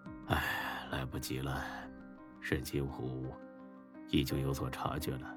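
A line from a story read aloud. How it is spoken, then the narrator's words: Helpless sigh over phone. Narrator (Chinese): 电话那边，韩强有些无奈的叹了口气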